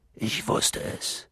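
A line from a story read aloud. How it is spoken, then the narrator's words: Murmured. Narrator (German): murmelte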